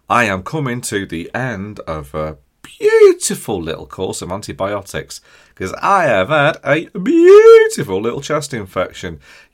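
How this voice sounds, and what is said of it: Hoarse, nearly lost voice. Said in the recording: “Oh, do you hear me then? Nearly lost my voice a little bit.”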